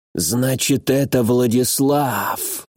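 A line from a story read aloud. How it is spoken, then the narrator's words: Creaky voice. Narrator (Russian): проскрипел Хангуи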